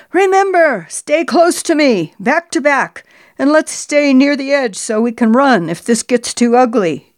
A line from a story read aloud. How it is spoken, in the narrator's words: Jay screamed at me over the clashing sounds of the war marching music